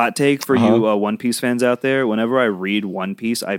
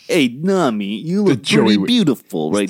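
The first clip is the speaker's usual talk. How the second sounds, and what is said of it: Put-on Brooklyn accent, cartoon dub. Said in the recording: “I picture Sanji with the Four Kids dub, the Brooklyn accent.”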